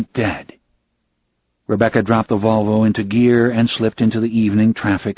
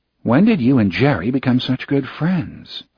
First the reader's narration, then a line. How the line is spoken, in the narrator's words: Elizabeth asked